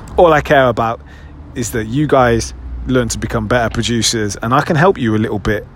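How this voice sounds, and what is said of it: British accent. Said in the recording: “my weird little British accent”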